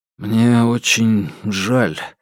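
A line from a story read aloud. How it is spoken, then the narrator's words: Forced, reluctant words. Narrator (Russian): выдавил Алексей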